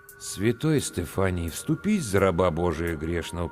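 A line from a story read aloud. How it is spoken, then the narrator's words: Muttered. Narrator (Russian): пробормотал я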